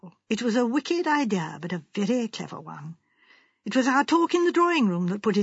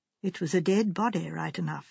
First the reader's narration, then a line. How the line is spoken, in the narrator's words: said Miss Marple gravely